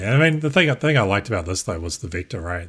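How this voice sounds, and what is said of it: New Zealand accent. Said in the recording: “your Kiwi accent there”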